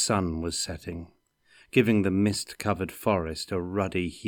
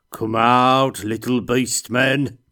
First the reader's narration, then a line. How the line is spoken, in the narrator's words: he bellowed